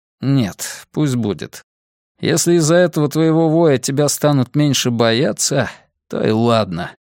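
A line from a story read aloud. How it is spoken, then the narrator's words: Sighing. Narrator (Russian): вздохнул Нат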